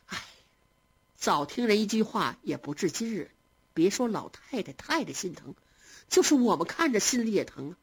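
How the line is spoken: Relieved sigh. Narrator (Chinese): 宝钗心中也宽慰了些，便点头叹道

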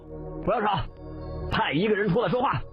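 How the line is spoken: Roaring. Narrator (Chinese): 巴桑吼道

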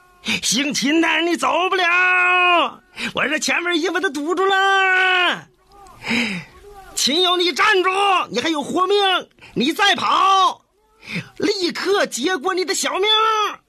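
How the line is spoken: Shouting while running. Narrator (Chinese): 这贾明 他一边跑一边喊

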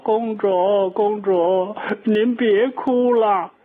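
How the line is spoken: Young maid crying, calling. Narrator (Chinese): 那个小丫鬟这还正哭呢，一边哭一边叫

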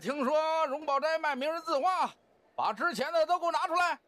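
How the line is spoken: Gruff loud clamor. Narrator (Chinese): 张乃光粗声大嗓的嚷嚷

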